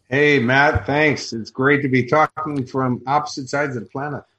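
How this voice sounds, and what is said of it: Chicago accent. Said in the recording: “I have a Chicago accent”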